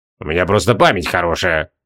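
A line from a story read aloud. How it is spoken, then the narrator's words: Grumbling mutter. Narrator (Russian): буркнул маг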